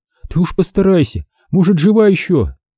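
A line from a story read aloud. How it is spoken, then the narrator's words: Woman sobbing harder. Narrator (Russian): Женщина еще сильнее разрыдалась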